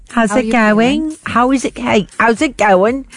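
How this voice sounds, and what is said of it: Imitating the Queen's voice. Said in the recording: “I think the Queen did visit her to say, how you doing? ... Imagine that's her accent, that, ... secretly.”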